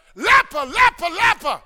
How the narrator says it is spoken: yell

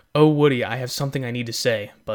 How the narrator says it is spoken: Buzz says

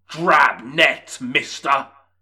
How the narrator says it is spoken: he shouted

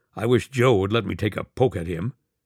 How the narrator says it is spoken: he grumbled

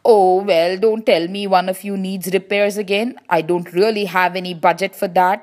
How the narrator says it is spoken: exclaimed the mayor

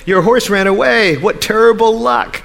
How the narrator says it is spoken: their neighbors exclaimed

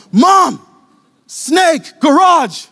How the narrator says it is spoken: yell

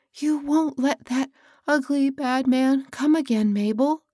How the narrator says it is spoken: pleaded

